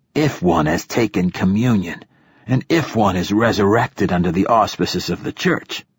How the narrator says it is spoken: he rasped

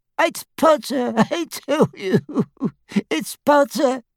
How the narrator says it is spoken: sobbed Xenophilius

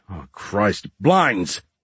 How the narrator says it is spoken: Kevin Roth grunted

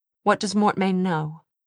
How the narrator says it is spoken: Charlotte sighed

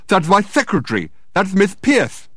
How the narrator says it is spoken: exclaimed Dirk in astonishment

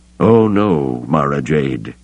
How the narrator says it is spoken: he murmured

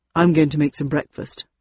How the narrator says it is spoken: said Landon

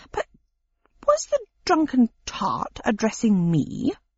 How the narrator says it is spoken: said Pickwick haughtily

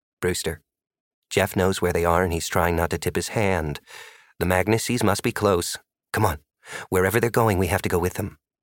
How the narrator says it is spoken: Maddie whispered

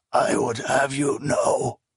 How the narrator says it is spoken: the old man wheezed

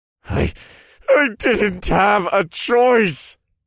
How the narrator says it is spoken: he wailed

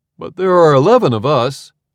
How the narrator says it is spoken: Archibald exclaimed over his speaker

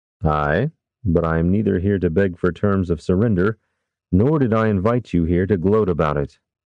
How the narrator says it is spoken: Captain Zane replied

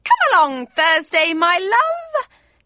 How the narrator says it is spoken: she screeched, the hissing of the snakes almost drowning her out

